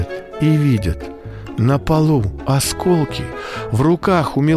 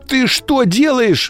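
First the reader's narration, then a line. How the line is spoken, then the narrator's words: Parents shouting together. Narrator (Russian): закричали мама с папой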